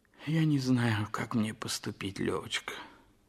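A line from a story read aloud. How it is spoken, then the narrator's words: Sighing. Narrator (Russian): вздохнув, сказал Толстой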